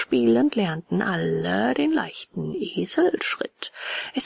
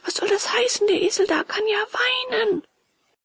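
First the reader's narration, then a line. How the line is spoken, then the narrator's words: Called out. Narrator (German): rief Bengele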